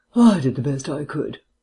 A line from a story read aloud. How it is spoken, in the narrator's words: sighed Vance